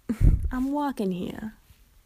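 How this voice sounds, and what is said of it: Poor put-on New York accent. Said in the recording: “I know I can't do a New York accent. ... That was terrible.”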